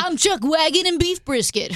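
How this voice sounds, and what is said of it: Radio morning show host voice. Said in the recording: “there's also the morning show voice ... that's what the morning shows sound like”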